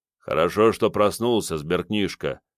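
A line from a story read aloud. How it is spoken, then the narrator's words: Calm bearded man. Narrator (Russian): спокойно проговорил бородатый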